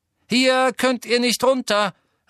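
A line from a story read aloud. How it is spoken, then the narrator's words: Called to crowd. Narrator (German): rief Ginny der Menge zu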